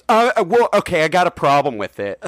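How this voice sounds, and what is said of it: Imitates another person's voice. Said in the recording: “it's a good impression of Gabe.”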